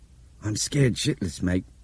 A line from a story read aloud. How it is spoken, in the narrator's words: Nick Hopewell said in a strange, hoarse voice